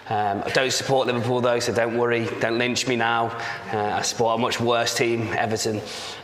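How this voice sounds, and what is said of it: Slight northern English accent. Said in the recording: “It's a slight northern accent,”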